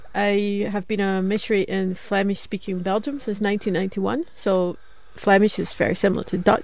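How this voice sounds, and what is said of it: Scottish accent. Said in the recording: “you speak with an odd accent ... my Scottish accent”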